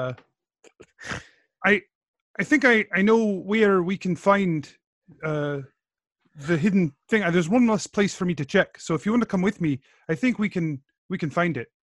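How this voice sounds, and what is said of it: Put-on Braveheart-style accent. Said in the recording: “Your accent is all ... I didn't watch Braveheart ahead of time.”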